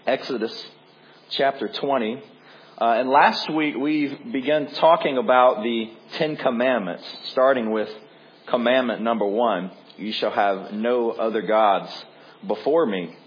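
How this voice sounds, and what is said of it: Hoarse, congested voice. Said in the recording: “Excuse my voice. I'm still fighting off this cold, so forgive me this morning if I cough a little bit.”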